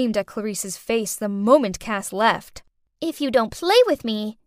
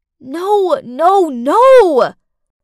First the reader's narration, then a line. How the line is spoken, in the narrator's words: I screamed inside my head